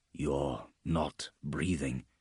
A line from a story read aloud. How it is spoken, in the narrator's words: added quietly